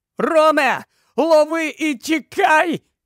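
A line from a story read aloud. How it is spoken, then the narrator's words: Shout. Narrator (Ukrainian): закричав він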